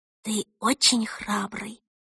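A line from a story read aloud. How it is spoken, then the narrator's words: Whispered. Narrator (Russian): шепнула она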